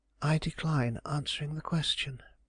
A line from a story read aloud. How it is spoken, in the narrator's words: quietly said